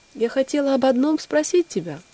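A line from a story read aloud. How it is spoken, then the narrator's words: Timid little bird. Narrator (Russian): робко ответила маленькая птичка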